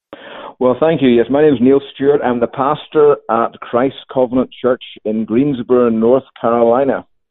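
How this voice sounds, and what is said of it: Northern Irish accent. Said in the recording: “your accent ... I hail originally from Northern Ireland”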